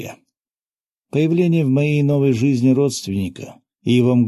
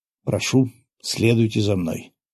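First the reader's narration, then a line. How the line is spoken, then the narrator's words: Quiet. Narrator (Russian): негромко произнес безопасник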